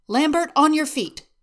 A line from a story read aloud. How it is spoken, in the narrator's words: Agent Coulson shouts as he jogs down the stairs